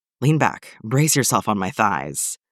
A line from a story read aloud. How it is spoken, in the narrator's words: Steve pants